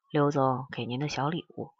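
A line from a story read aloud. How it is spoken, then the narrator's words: Softly. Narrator (Chinese): 轻声说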